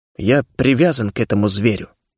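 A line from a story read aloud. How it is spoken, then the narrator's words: Mutter, feigned doubt. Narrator (Russian): буркнул я, старательно изображая сомнение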